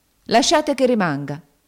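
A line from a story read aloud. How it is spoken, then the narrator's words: Exclaimed. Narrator (Italian): esclamò St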